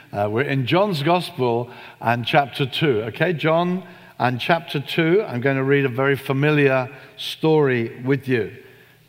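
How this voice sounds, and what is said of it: Unfamiliar foreign accent. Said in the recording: “my strange accent”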